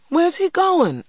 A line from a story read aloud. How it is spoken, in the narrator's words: I cried